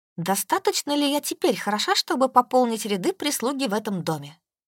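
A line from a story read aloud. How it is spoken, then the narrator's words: Snide question. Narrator (Russian): ехидно спросила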